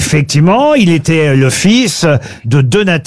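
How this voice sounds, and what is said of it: Usual voice. Nothing is said of it.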